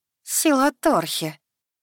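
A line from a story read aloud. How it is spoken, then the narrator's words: Through gritted teeth. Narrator (Russian): Процедила вампирша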